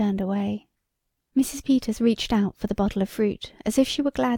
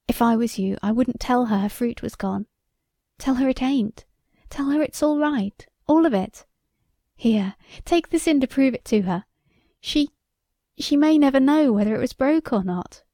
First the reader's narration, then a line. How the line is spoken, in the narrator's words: choked out